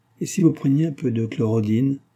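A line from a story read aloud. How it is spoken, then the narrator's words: Murmured. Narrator (French): murmura Marcia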